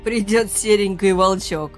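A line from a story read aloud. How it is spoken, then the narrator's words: Laughing loudly. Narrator (Russian): хохотал он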